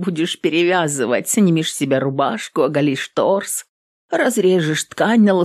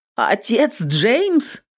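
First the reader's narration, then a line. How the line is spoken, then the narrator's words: Exclaimed. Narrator (Russian): воскликнула она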